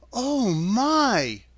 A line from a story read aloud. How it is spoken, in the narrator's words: Dorothy cried